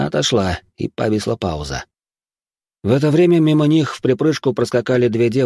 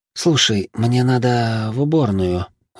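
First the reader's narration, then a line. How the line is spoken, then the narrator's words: Sighing mother. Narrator (Russian): вздохнула мать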